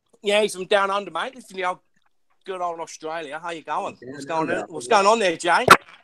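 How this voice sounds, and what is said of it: Weak put-on Australian accent. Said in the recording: “I could do an Aussie ... Your accent game is weak ... It's super fucking weak.”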